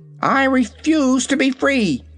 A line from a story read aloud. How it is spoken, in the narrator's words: cried the kitten in a sharp voice